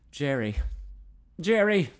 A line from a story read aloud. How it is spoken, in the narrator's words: gasped